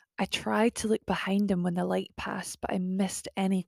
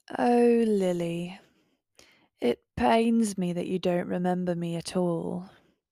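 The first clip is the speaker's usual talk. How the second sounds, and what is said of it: Old London twang. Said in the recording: “I recognize this accent. It was an old London twang”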